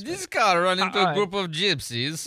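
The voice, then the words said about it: Borat impression, Kazakh accent. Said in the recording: “Borat ... from Kazakhstan and spoke with that accent”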